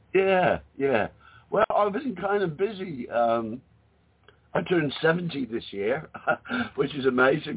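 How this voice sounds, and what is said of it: Australian accent. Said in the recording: “our friend from down under or up over ... we haven't heard your accent in a while”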